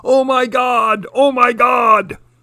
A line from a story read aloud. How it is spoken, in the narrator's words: humans yelling